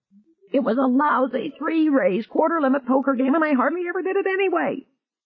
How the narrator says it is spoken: Pitt shrieked

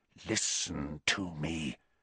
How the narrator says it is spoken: said Snape, his voice so low now that Harry had to push his ear very hard against the keyhole to hear

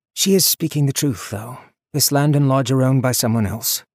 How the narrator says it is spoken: Neil said calmly

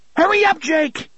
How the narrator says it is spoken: he screamed into the keyhole

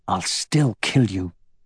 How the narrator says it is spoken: Aragorn muttered

